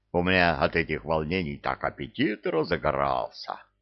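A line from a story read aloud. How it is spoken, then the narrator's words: Guttural growl. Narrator (Russian): Кевин утробно зарычал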